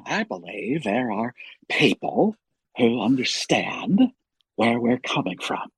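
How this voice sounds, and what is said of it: Imitates another person's voice. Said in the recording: “Paul Giamatti is one of my favorites.”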